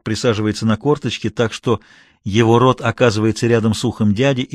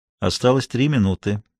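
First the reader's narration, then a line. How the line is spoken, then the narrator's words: Quiet. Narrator (Russian): тихо произносит Рамос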